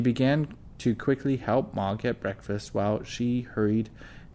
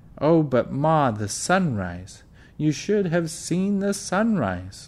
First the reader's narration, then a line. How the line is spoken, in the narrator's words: Laura exclaimed